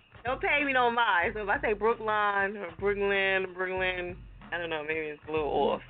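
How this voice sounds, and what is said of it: New Jersey accent. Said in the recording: “I got a Jersey accent, you know what I'm saying? So, like, we say everything wrong.”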